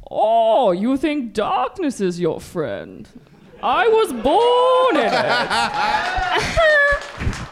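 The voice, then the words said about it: Impression of the villain Bane. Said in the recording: “Bane is an impression... That's your go-to impression, Bane.”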